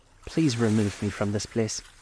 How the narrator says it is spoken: said Scrooge in a broken voice

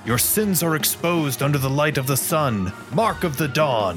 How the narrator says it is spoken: shout out

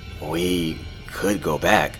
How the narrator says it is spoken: I murmured half heartedly

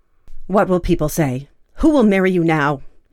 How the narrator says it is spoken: shouted

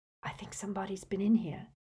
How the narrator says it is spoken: Hermione whispered

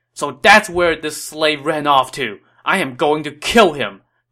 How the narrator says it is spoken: Dong Cheng said angrily

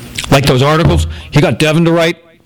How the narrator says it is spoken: Patrick sputtered

